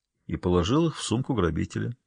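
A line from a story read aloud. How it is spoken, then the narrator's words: Quiet remark from doorway. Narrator (Russian): тихо прибавил Вебер со своего места у двери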